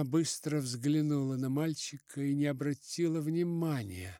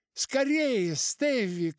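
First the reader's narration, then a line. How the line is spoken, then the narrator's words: Shouted. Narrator (Russian): крикнула она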